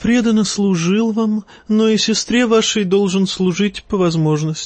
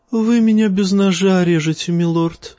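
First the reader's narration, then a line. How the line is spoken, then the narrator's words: Sighing eunuch. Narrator (Russian): вздохнул евнух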